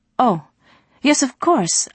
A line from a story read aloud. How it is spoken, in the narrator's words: Ali stammered